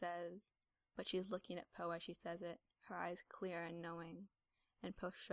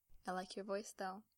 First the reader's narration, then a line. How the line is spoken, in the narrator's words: Finn says